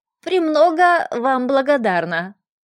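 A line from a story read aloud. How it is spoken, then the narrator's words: Creaky voice. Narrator (Russian): произнесла скрипучим голосом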